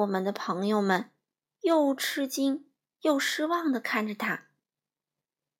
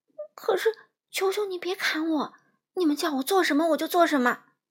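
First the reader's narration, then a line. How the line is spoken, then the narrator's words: Trembling voice. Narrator (Chinese): 小个子男人声音发抖地说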